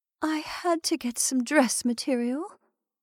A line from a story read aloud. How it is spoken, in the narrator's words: she said in a quavering voice